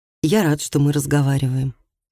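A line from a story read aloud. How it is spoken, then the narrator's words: Quiet. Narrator (Russian): тихо сказал Микаэль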